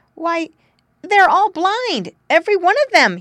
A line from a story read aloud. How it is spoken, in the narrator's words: cried